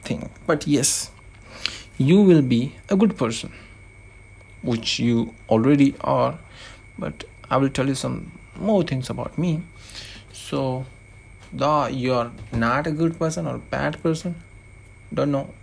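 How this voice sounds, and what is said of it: Non-native English accent. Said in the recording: “my accent because this is how i talk ... wrong english because this is not my mother tongue”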